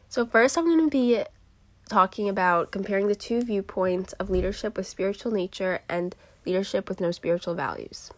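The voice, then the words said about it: Sounds a little sick. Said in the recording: “if I sound a little sick”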